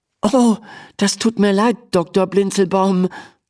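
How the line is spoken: Stammering. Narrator (German): stammelt Emma

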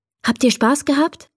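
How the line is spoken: Plain question. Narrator (German): fragt Mama

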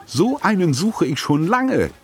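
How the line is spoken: Enthusiastic call. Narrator (German): rief Tante Edda begeistert

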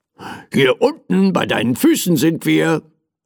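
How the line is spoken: Impatient call. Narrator (German): rief mein Teddy ungeduldig

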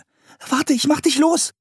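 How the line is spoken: Calling out. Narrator (German): rief Anne

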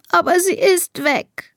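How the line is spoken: Sobbing. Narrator (German): schluchzt Elisa

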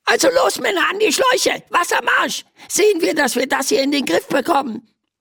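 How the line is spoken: Squeaky voice from below. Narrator (German): piepst eine Stimme von unten

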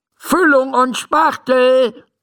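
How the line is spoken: Calling out. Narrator (German): ruft Dr

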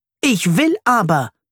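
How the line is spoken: Screaming. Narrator (German): schreit er

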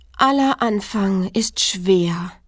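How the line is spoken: Sighing. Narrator (German): seufzte es

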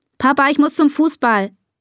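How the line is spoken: Called out. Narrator (German): ruft Bea

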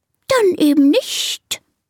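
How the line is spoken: Offended hissing snake. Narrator (German): zischt die Schlange beleidigt

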